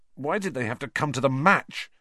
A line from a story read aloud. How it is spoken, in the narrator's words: said Harry bitterly